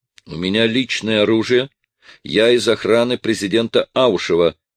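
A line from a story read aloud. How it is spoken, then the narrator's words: Loud proud declaration. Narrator (Russian): громко и гордо заявил Черноусый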